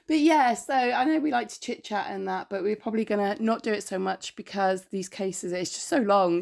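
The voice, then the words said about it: Congested, hoarse, fading voice. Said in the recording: “she's poorly ... I'm a bit snotty and my voice is going”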